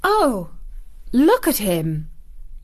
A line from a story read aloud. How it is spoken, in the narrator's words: exclaimed Mary